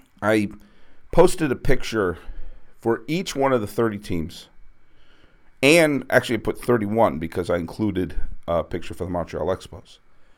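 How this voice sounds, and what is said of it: Froggy, slightly hoarse voice. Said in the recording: “had a little bit of a sore throat. You can probably hear it. My voice is a little froggier than normal.”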